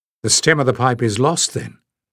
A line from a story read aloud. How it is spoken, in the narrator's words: he asked in a level voice